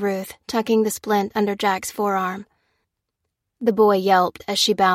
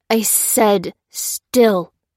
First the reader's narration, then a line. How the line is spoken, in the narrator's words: hissed the sailor